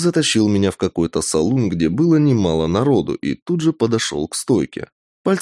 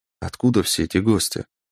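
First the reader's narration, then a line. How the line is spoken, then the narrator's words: Whispering. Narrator (Russian): произнес я шепотом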